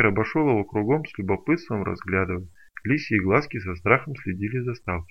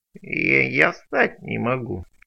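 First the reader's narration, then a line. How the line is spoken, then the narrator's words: Creaky voice. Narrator (Russian): проскрипел мутант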